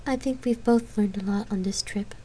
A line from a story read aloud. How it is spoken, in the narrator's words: she said softly